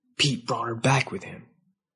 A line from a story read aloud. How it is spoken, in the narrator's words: Witzer whispered